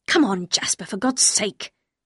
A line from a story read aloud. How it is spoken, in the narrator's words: said Maxim angrily